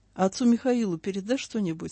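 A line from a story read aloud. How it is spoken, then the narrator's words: Plain. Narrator (Russian): спросил он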